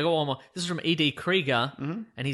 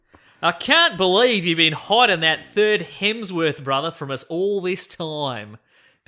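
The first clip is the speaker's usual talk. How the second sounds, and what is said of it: Put-on Australian accent. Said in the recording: “he's written it in what I'm going to assume is offensive Australian accent ... I'll do it in Australian accent”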